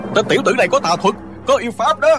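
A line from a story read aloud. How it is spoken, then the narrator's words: Frightened angry monks clamoring. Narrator (Vietnamese): Cả đám hòa thượng vừa sợ vừa tức, nhao nhao hò hét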